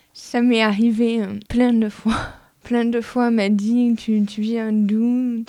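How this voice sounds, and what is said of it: Noticeable unusual accent. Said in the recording (French): “Tu as un accent ... j'ai un accent ... j'ai honte de mon accent. Je trouve qu'il est vraiment horrible”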